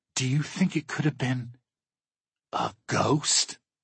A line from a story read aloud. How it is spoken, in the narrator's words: she gasps